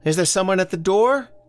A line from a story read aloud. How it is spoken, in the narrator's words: From the kitchen, Elsie called out